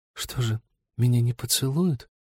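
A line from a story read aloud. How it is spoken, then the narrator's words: Whisper. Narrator (Russian): прошептала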